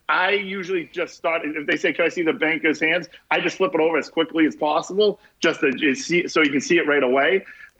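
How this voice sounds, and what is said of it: Boston East Coast accent. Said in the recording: “the East Coast accent ... You can you can really hear it. I have one big time ... I live about 30 miles outside of Boston”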